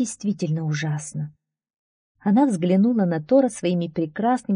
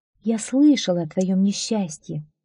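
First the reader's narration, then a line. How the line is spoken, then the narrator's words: Plain. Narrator (Russian): сказала Фрейя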